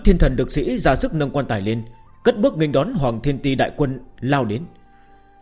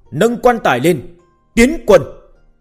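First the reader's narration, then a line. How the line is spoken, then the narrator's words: Sudden loud shout. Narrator (Vietnamese): tiểu phụ đột nhiên thét lớn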